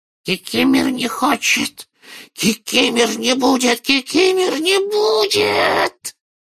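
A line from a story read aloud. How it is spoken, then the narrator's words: Loud hoarse elf. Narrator (Russian): прохрипел домовик так же громко, как и дядя Вернон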